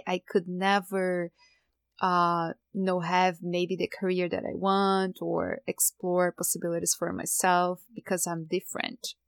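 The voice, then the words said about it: Non-native English accent. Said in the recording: “my accent”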